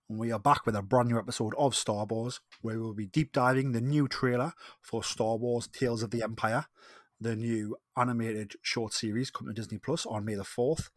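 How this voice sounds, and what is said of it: Geordie accent. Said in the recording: “my lovely Geordie accent”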